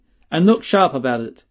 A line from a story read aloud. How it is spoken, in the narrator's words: he said sternly